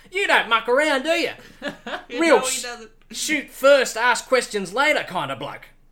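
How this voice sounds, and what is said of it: Put-on Australian accent, slipping. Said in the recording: “your Aussie accent slipped there a bit ... it went into your normal voice”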